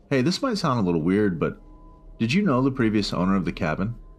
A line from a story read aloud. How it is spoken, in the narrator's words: I asked